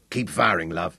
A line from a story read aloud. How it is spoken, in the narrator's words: Fergus croaked in that husky stranger's voice